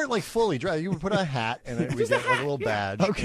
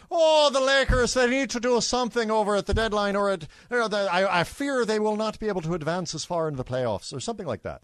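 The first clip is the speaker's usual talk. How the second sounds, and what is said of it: Exaggerated, not very good Irish accent. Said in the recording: “I would do an Irish accent. ... Not a good one. ... I would like, lean into it again. Broad stereotypes.”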